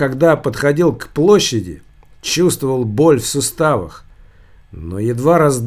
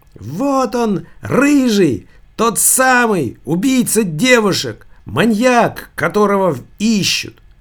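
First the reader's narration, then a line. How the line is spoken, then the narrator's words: Shrill boyish shout. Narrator (Russian): Какой-то пронзительный, мальчишеский, так показалось Савиньи, голос закричал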